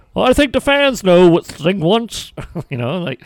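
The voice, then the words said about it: Imitates another person's voice, poorly. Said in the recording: “that's my Tony Schiavone impression ... that wasn't a good one ... without a good impersonation”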